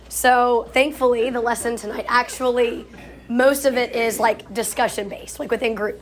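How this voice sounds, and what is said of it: Sick-sounding, strained voice. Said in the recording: “apologize for my voice. I was sick a couple of days ago, and my vocal cords have not gotten the message that I am no longer sick”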